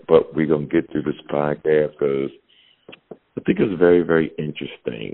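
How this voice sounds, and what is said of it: Strained, failing voice. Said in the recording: “my voice sounds crazy ... my voice is on the blink”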